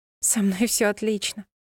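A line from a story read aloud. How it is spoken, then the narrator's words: Laughing young woman. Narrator (Russian): засмеялась девушка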